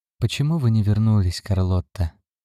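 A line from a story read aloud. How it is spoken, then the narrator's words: Soft question. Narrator (Russian): мягко спросил Шнайдерман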